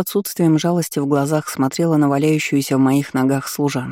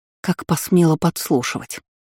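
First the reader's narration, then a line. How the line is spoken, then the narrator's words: Muffled growl. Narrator (Russian): рыкнула приглушенно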